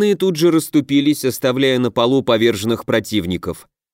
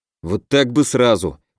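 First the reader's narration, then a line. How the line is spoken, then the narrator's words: Grumbling. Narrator (Russian): проворчал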